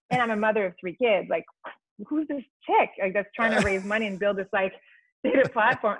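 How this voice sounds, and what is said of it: Foreign accent. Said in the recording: “I have a funny foreign accent.”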